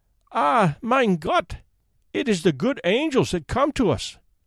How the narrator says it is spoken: cried the poor woman with tears of joy

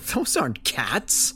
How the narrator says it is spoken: I said with a scoff

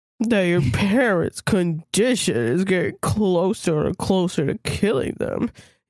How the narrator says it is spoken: he says slowly and sadly

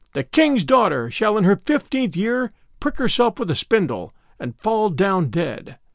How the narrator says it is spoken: wished to avenge herself for not having been invited, cried with a loud voice

